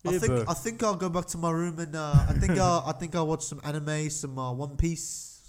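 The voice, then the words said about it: Poor put-on New Zealand accent. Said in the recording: “That was a terrible New Zealand accent.”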